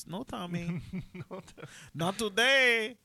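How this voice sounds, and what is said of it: Hispanic-sounding Modern Family character voice. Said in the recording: “Is she Hispanic? ... I don't know why I made her sound like homegirl from Modern Family.”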